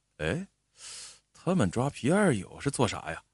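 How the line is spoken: Dazed murmur. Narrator (Chinese): 老山愣了半天，才喃喃的说了一句

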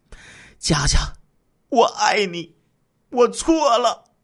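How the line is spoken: Pleading. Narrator (Chinese): 何家文哀求说道

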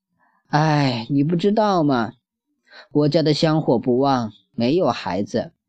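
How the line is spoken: Sad sighing woman. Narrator (Chinese): 女人长叹了一口气，伤感地说道

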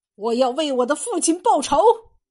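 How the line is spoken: Young man shouting. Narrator (Chinese): 少年，口中喊着

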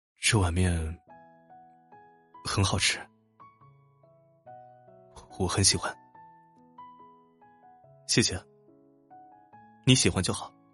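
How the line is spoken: Murmuring man. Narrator (Chinese): 男子喃喃的说道

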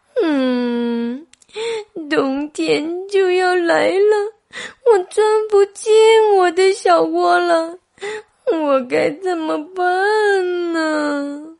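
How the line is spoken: Crying. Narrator (Chinese): 小刺猬哭了起来

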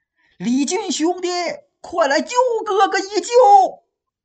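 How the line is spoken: Joyful loud shouting. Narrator (Chinese): 宋江心里不由得大喜呀，高声大喊

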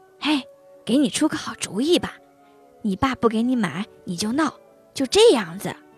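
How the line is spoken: Excited lowered voice. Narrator (Chinese): 小猴子高兴起来 压低声音说

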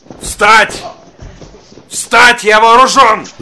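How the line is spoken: Shout. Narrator (Russian): закричал

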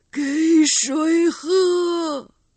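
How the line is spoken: Miserable cry. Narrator (Chinese): 这声悲惨的呼唤

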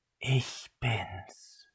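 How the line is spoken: Female whisper. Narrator (German): flüsterte sie

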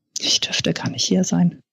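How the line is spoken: Murmuring. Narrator (German): murmelte sie

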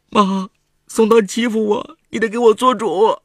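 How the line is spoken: Crying. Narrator (Chinese): 程婉哭着

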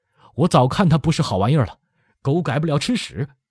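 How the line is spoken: Panting, out of breath. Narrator (Chinese): 黄富阳斜靠在城墙根儿，喘息着说

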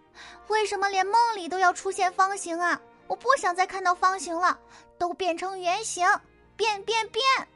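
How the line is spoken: Furious loud shout. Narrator (Chinese): 圆圆气坏了，他大声喊道

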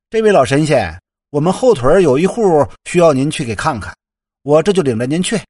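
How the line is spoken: Loud calling. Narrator (Chinese): 高声的召唤着

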